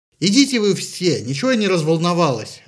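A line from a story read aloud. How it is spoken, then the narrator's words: Angry retort, sniffling. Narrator (Russian): ляфнула в ответ Афродита и, сердито шмыгнув носом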